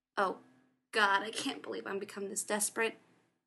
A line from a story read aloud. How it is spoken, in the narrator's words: he snapped